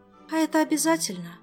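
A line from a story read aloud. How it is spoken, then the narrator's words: Sigh. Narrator (Russian): вздохнула Ольга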